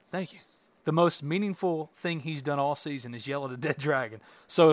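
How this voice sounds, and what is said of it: Usual voice. Nothing is said of it.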